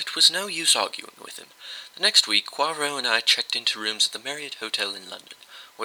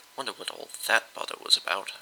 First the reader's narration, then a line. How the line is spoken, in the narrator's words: muttered